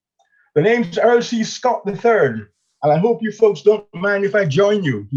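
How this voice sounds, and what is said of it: Thick American accent. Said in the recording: “he said in a thick American accent”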